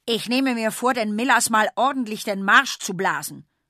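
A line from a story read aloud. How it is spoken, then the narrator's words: Angry shout. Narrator (German): ruft Bertis Vater wütend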